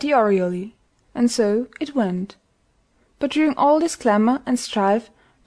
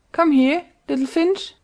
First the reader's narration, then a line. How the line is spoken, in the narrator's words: he cried